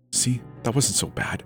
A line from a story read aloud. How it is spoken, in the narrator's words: Nola whispered to me